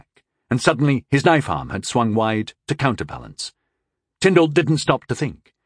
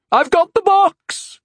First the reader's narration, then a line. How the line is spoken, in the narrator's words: Rondal screamed